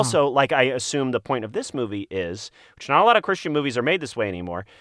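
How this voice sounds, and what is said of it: Usual voice. Nothing is said of it.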